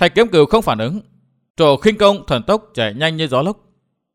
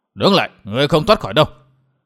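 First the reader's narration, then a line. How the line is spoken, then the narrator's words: Shout. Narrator (Vietnamese): Lão quát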